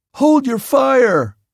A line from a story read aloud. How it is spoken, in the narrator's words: yelled